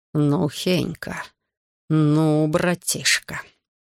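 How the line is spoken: Through clenched teeth. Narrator (Russian): Марцис процедил сквозь зубы

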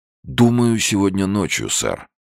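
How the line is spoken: Plain. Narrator (Russian): ответил он

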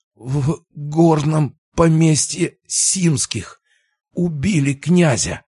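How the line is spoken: Strained, horrified. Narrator (Russian): выдавил он из себя с трудом и ужасом в глазах

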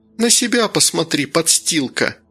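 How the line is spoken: Snapping retort. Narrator (Russian): огрызнулась Женя

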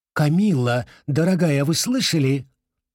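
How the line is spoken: Exclaimed. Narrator (Russian): воскликнула

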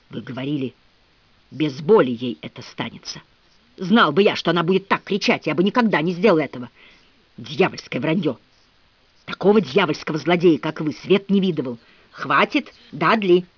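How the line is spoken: Breathless but resolute old man. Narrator (Russian): сказал старик, задыхаясь, но решительным тоном

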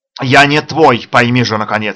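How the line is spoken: Near roar. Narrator (Russian): чуть не взревел Сираков

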